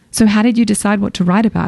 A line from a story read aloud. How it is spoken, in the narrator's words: I asked